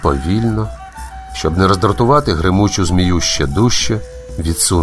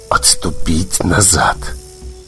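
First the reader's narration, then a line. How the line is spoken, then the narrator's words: Whisper through clenched teeth. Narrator (Ukrainian): Крізь заціплені зуби чорний ворон прошепотів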